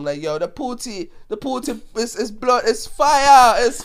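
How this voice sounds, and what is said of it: Put-on Jamaican accent. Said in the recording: “Why do you give someone from Ghana a Jamaican accent? ... I can't do a good African woman accent, so I have to do that one”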